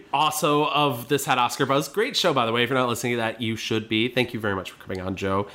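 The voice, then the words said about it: Deep, sick-sounding voice. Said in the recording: “my voice is getting deep because I'm sick.”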